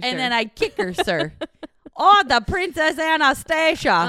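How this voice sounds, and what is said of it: Cartoon character voice. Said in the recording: “Now I'm turning into Bartok from the movie Anastasia ... I try to do other accents.”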